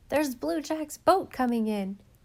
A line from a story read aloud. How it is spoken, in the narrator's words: someone exclaimed